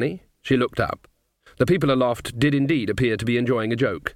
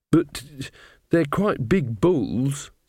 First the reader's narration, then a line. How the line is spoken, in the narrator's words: said Magrat nervously